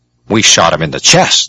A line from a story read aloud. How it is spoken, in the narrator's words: the political instructor snapped